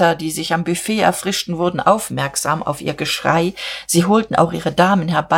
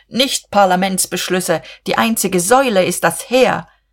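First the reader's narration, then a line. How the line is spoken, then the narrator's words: Sudden wild shout. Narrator (German): rief Buck mit jähem Schwung und noch wilder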